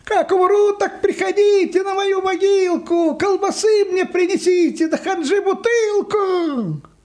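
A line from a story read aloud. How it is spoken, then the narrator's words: Distant shouting. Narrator (Russian): Йоська кричал где-то уже в отдалении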